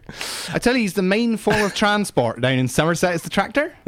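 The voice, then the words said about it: Somerset West Country accent. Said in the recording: “your Somerset accent”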